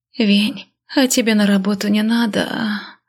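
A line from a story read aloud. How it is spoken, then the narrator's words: Sleepy, moaning last word. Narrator (Russian): Сонно поинтересовалась, простонав последнее слово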